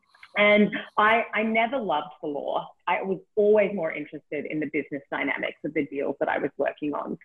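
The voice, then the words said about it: Australian accent. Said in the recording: “I'm from Australia, in case you can't tell from the accent.”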